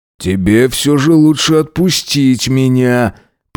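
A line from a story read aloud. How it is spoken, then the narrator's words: Reply through teeth. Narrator (Russian): процедил я в ответ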